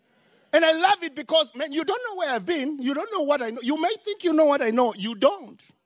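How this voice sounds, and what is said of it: Zimbabwean-accented English. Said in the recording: “I have an accent. I'm from Zimbabwe.”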